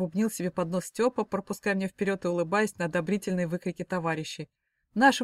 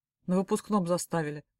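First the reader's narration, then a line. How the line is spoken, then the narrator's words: Grumbled. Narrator (Russian): буркнул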